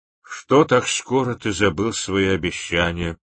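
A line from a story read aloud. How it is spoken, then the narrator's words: Old man's detached voice. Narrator (Russian): сказал старец каким-то отрешенным голосом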